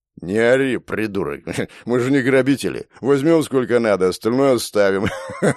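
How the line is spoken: Hoarse laughing. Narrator (Russian): Хулиган хрипло засмеялся

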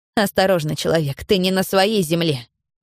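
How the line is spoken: Angry hiss. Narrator (Russian): прошипела я зло

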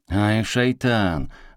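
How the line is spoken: Snarling angrily. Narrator (Russian): злобно ощерились двое самых пострадавших

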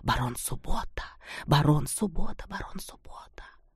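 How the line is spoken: Quiet excited crowd whisper. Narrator (Russian): По их рядам пробежал тихий взволнованный шепот

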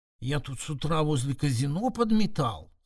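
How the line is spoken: Conspiratorial whisper. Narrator (Russian): заговорщически прошептал дворник

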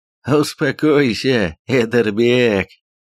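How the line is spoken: Laughing warrior. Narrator (Russian): засмеялся один из воинов

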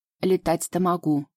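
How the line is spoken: Snort. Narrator (Russian): фыркнул конек

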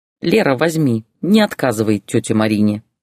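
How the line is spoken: Plain. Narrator (Russian): сказала Лариса

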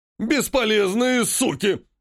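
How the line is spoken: Barking orc. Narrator (Russian): рявкнул орк

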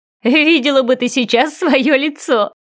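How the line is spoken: Laughing. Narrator (Russian): хохотнула Даша

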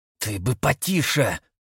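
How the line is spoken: Hissing. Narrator (Russian): прошипел Дмитрий

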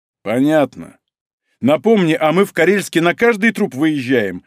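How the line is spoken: Angry barking shout. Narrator (Russian): зло гаркнул Малинин

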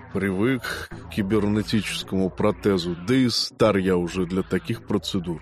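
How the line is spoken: Gruff mutter. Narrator (Russian): буркнул в ответ Казимир

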